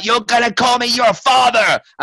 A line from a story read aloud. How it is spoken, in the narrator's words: a little boy, I think, in a shower screaming and is like